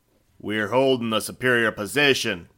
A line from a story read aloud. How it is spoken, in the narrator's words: Hillman shouts back